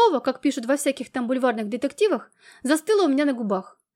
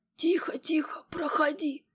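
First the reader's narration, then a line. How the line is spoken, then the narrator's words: Hoarse whisper. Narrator (Russian): чей-то хриплый шепот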